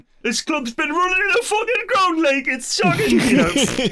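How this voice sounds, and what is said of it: Put-on Geordie/Sunderland accent. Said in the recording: “I can't do a Geordie accent, as evidenced by that... That was very good... That was really good. Excellent... the Sunderland accent is distinctly different, and it is hard to nail down.”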